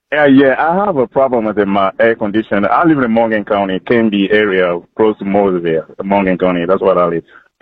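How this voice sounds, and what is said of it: French accent. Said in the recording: “I'm Frenchman ... love the accent. I love the accent.”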